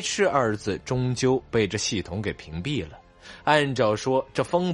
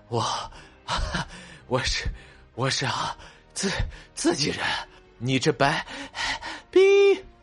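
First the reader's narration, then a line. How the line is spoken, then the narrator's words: Panting, halting speech. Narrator (Chinese): 风不觉 喘着粗气 断断续续道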